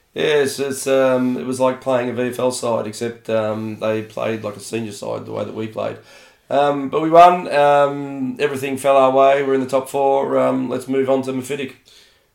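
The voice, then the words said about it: Slightly hoarse voice. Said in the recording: “my voice isn't hoarse from yelling ... Just a little hoarse? ... I'm a little hoarse.”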